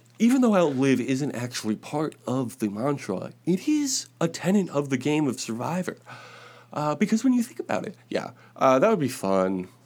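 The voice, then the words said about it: Imitates another person's voice. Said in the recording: “That was my Kamala Harris impression. Pretty good.”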